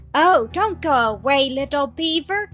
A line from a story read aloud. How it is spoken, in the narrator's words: cried Milly